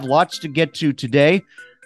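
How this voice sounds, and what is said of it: Hoarse, congested voice from a cold. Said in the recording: “Pardon my voice, battling a cold a little bit.”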